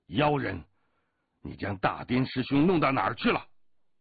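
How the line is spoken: Angry shout. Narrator (Chinese): 一名罗汉怒喝道

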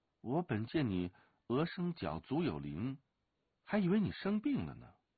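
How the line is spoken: Murmuring. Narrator (Chinese): 独孤剑喃喃的说

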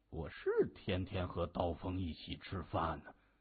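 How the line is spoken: Murmuring. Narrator (Chinese): 官风喃喃的说

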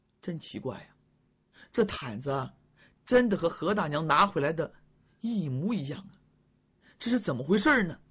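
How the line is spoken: Mumbling. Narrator (Chinese): 嘟囔

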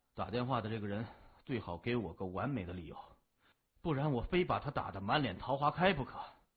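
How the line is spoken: Sleepy muttering. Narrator (Chinese): 谢文东睡眼朦胧的嘴里嘟囔着

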